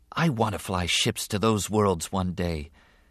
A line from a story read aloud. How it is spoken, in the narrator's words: Anakin said softly